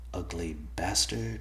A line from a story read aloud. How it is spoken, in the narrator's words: he muttered under his breath